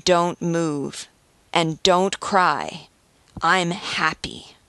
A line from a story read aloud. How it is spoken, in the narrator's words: says, with sincerity and deeply moving conviction